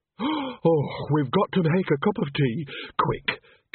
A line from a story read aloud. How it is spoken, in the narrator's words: gasped Nanny, almost sagging with relief